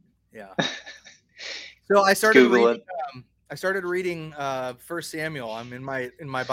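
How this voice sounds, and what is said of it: Usual voice. Nothing is said of it.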